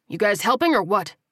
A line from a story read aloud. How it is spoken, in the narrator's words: He grunted